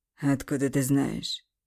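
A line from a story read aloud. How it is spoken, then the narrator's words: Snort. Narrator (Russian): Хмыкнул Андрей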